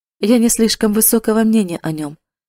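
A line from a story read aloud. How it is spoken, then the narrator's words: Careless, dismissive. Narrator (Russian): сказал он небрежным тоном, как будто от этого вопроса было легко отделаться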